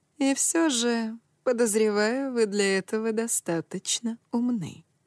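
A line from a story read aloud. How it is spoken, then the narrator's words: Insinuating. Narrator (Russian): вкрадчиво продолжал он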